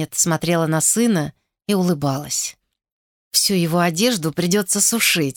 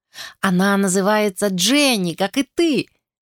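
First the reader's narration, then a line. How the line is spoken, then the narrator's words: Laughing boy. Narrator (Russian): смеясь сказал мальчик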